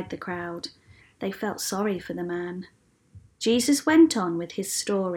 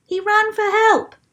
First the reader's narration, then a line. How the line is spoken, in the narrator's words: shouted someone